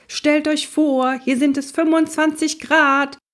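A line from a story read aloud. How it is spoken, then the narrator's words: Shouting. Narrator (German): schrie Onkel Max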